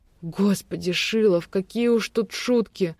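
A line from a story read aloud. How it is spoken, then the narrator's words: Moaning. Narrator (Russian): простонала я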